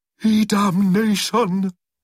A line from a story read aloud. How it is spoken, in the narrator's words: howled Acid Preflux